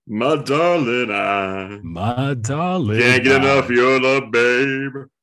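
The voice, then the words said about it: Deep smooth nighttime DJ voice. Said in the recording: “Special guest today, Barry White ... Is that what Barry White sounds like? ... my nighttime DJ voice”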